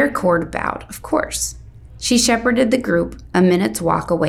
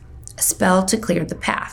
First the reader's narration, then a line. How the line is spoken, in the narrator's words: he murmured